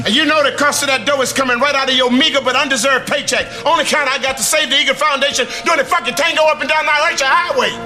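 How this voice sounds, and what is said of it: Shouting. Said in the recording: “stop shouting. I'm not deaf. You know why you're shouting? ... You're the comic relief”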